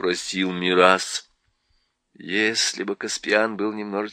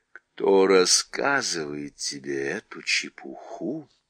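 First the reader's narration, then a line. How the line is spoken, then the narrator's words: Menacing. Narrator (Russian): спросил дядя грозным голосом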